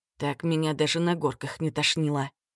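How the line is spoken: Whisper. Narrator (Russian): шепнул я брату

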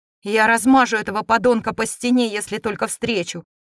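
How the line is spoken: Mage's hateful growl. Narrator (Russian): прорычал маг

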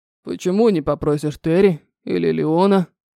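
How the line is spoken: Gruff mutter, big man. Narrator (Russian): буркнул здоровяк

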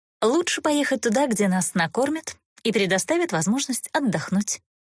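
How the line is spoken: Calm, openly mocking. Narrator (Russian): Не скрывая насмешки, спокойно ответила Эста

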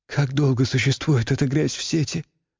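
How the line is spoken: Trembling voice. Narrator (Russian): дрогнувшим голосом спросила Юлия

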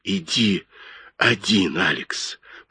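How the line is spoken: Breathless whisper. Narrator (Russian): прошептала она, задыхаясь

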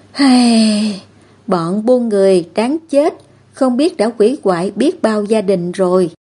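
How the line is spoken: Sighing. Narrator (Vietnamese): Anh ấy thở dài một tiếng

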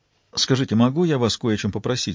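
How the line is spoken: Plain. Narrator (Russian): сказала Джозефина

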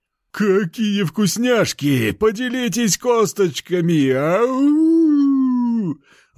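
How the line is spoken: Wolf howling. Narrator (Russian): Взвыл волк

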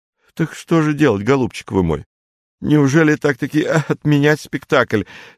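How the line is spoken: Near-crying voice. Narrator (Russian): Совсем уже плачущим голосом заговорил Полушкин

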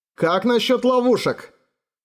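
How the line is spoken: Shouting. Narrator (Russian): Эраган крикнул

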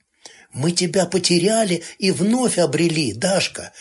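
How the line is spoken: Stammering mutter. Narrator (Russian): бормотал он, заикаясь

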